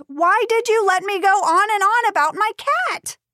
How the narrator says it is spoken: Jenna yelled

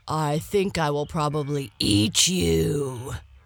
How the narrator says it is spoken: growled the lion

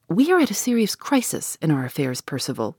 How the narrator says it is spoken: he said

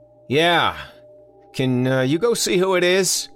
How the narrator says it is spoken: he yelled back

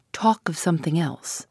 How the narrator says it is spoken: she said, whispering through her teeth

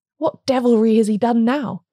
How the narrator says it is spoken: he cried, in voluntary passion

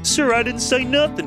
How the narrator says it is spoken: pleaded Bodega, mystified

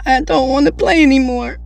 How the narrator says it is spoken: I said with a sob

